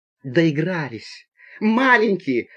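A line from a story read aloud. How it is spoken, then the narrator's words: Exclamation. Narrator (Russian): воскликнула пассажирка в темном углу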